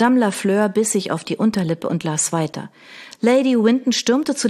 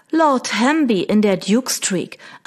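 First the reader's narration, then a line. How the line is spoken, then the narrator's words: Plain answer. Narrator (German): antwortete Lady Winton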